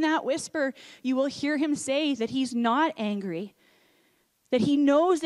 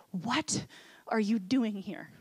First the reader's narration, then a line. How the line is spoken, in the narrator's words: God's gentle whisper say